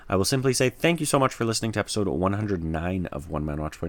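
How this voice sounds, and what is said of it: Tired voice giving out. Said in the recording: “I can actually hear my own voice starting to give out ... I am fading very fast ... my voice is kind of uh, leaving me right now. It is escaping me.”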